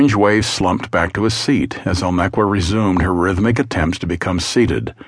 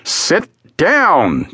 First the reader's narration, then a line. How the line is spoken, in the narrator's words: Jules yelled